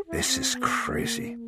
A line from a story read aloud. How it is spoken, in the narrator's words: Ferris said in a whisper